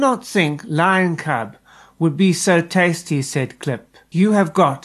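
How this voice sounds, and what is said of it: Usual voice. Nothing is said of it.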